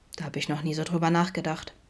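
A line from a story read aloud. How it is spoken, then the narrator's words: Sheepish murmur. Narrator (German): murmelte er kleinlaut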